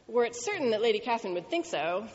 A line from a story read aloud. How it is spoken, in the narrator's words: said Mr